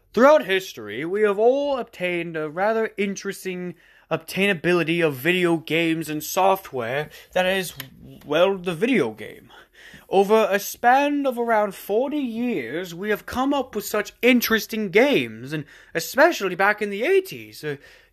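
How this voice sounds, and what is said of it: Fancy put-on voice, hoarse. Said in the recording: “in my most fancy voice I can, despite my voice being shot from, again, screaming”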